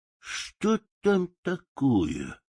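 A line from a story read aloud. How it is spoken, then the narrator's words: Mumbling. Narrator (Russian): бормотал он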